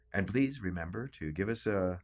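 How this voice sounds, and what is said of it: NPR radio announcer voice. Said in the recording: “I'm going into my NPR voice here”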